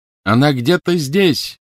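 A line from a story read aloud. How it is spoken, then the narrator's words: Shouting. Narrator (Russian): крикнул ей Гарри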